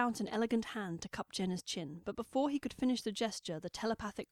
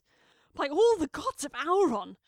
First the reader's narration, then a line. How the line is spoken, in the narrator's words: shrieked Callie's voice